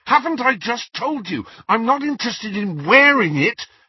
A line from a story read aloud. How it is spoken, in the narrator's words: Harry said fiercely